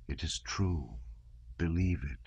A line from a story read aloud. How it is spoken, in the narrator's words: the sound of the waves kept up a refrain to Pierre's words, whispering